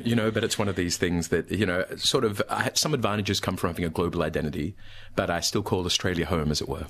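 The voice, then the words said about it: Australian accent. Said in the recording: “As you can hear, I sound Australian. ... your Australian accent”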